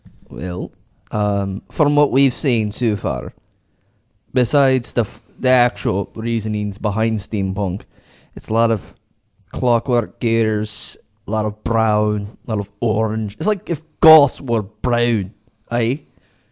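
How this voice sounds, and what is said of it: Put-on accent. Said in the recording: “I don't know how long I can keep up that accent, because it slips me up sometimes.”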